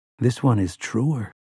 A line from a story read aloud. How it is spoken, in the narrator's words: whispered even deeper